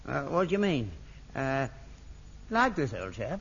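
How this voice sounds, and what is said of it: Put-on upper-class English accent. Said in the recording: “Can you speak with an upper-class accent? ... You see, he's perfect. ... He's not perfect. He's rotten, rotten.”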